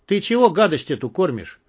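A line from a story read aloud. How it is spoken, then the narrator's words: Sudden angry question. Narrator (Russian): вдруг зло спросил Юзик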